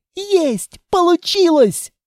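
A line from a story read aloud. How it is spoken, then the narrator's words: Joyful yell. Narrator (Russian): радостно заорала Анна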